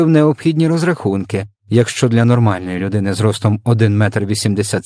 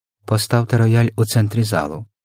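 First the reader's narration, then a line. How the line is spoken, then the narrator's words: Whispered command. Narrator (Ukrainian): пошепки розпорядився містер Тибс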